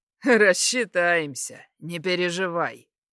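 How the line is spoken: Chuckling. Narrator (Russian): Хохотнул

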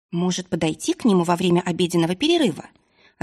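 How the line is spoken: Musing. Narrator (Russian): размышляла Магиана

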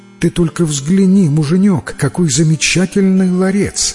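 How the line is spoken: Exclaiming woman. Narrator (Russian): воскликнула она

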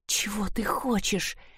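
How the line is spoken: Trembling whisper. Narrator (Russian): прошептала она в ответ дрожащими губами

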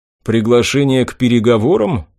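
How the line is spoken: Gloomy surprise. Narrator (Russian): мрачно удивился я

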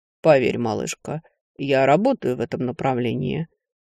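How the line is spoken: Calm reply. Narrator (Russian): спокойно ответил некромант

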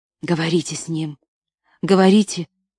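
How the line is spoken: Urgent whisper. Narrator (Russian): прошептал Шрей, обращаясь к Анне

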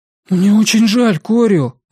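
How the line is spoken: Exclaiming. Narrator (Russian): воскликнул Сиян

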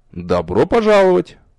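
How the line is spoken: Teacher's amused snort. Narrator (Russian): хмыкнул преподаватель

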